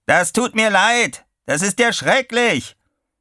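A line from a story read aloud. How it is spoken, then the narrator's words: Bellowing over the wind. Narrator (German): Eine Weile brauste ihn der Wind um die Ohren, dann brüllte Chuck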